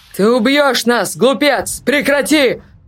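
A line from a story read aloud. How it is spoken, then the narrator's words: Shouted, barely audible. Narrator (Russian): Прокричал профессор, но Артур с трудом различал его слова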